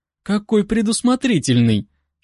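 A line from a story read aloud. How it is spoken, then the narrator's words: Giggle turning into moan. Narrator (Russian): хихикнула, но смех перешел в стон, когда его губы нашли чувствительное место под ухом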